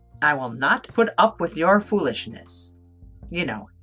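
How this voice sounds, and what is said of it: Stern teacher voice. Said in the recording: “in my best teacher voice”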